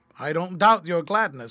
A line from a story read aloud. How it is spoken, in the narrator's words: said Fred